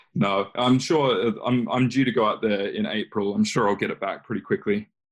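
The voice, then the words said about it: Slight Australian accent. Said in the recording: “you sound like you're Australian ... there's a little bit of an accent still there ... I'm slowly losing that accent”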